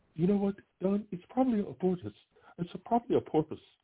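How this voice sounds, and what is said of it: Impression of a colleague. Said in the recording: “I can do a Jeffrey impression.”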